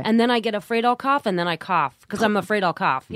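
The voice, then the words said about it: Sick voice from a cold. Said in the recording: “sick week after week ... With a cold that won't go away ... I can hear it in my voice”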